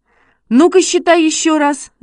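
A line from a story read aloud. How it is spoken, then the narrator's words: Shout. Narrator (Russian): закричал Шишкин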